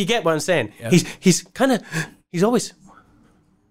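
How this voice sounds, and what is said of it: Usual voice. Nothing is said of it.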